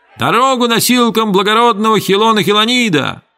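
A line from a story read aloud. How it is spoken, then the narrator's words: Slaves shouting. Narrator (Russian): рабы в желтых туниках опять закричали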